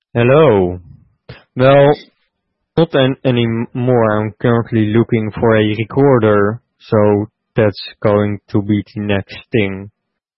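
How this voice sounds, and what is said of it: Robotic-sounding accented English, detached words. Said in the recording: “you sound like a robot ... my strange way of speaking English ... the way you speak English with the accent, because you really take good care of detaching the word”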